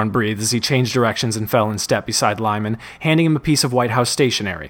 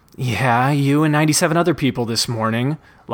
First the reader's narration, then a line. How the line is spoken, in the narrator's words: Lyman moaned